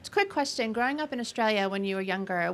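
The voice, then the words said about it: Australian-sounding accent. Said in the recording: “Because there's Aussies everywhere... Faking that accent... She's rubbing off on you.”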